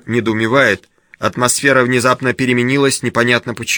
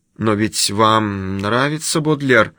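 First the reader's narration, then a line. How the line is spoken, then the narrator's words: Confused mutter. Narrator (Russian): бормочет Клэр в замешательстве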